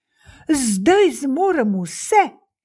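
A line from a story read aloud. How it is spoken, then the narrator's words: Exclaiming. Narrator (Slovenian): je vzkliknil sužnjin sin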